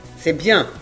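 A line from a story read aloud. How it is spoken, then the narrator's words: Plain. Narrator (French): dit Wilbold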